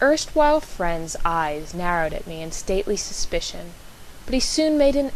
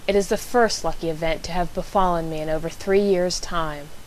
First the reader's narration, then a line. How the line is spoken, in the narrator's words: Holmes replied dryly